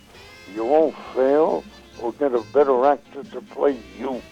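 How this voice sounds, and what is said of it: Impression of Sheldon Leonard. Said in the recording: “this is a pretty good impression of him”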